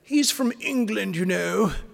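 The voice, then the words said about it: Attempted English accent. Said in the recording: “my attempt at an English accent”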